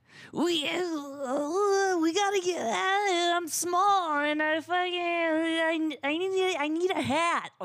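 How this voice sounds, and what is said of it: Imitates another person's weird voice. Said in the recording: “do the Bobcat Goldthwait voice ... That's like Bill Cosby ... he has a weird voice like that”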